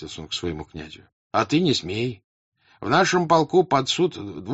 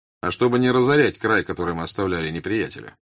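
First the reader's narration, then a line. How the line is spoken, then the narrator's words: Spiteful mockery. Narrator (Russian): злобно-насмешливо сказал князь Андрей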